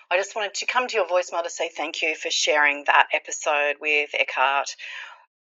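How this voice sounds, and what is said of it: Australian accent. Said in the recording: “it's ... from Sydney, Australia ... I know you like my accent.”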